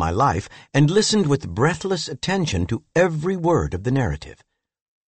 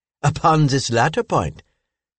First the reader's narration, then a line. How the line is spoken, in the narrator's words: said Madame Lalande laughingly